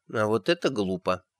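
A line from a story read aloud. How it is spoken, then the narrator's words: Muttered under breath. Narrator (Russian): пробормотала она под нос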